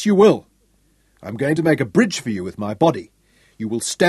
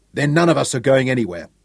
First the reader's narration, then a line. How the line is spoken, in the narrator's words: said sharply